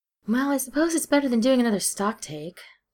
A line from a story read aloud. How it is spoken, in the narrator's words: Steed sighed